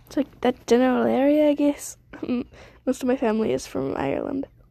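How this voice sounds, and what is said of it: Poor put-on Irish/Scottish accent. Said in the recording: “I'm doing a Scottish accent. This is an awful Scottish accent. I mean, Irish accent.”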